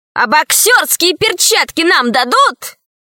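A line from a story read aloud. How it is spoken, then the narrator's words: Shouting. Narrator (Russian): крикнул он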